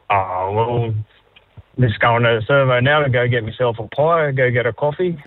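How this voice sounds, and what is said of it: Broad Australian accent. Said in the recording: “do people say you've got a good Aussie accent ... Go real Aussie for me”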